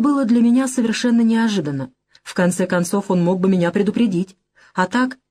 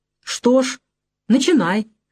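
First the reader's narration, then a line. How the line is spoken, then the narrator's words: Demanding, somewhat angry. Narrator (Russian): требовательно и, как мне показалось, даже сердито прозвучал голос Трифонова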